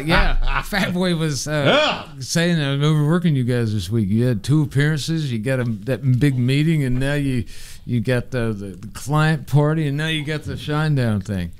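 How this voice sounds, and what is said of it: Impression of a coworker. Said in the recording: “doing an impression.”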